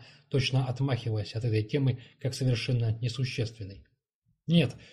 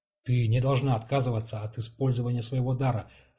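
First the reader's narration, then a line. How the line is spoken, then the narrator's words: Plain. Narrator (Russian): сказала она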